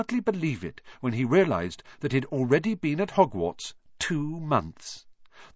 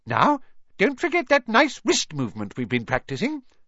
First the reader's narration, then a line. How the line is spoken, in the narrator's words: squeaked Professor Flitwick